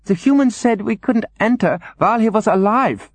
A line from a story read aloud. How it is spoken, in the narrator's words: squeaked Cumulus